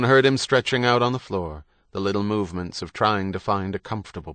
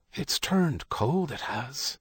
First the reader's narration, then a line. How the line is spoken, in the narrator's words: Herodie whispered